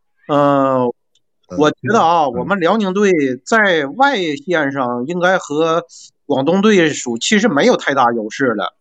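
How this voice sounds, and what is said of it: Northeastern Chinese accent. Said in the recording (Chinese): “我估计你也听到我东北的口音了”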